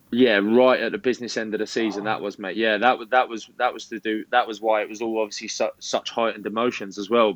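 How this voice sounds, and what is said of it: Southern English accent. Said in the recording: “they caught wind with my accent that I was a Southerner”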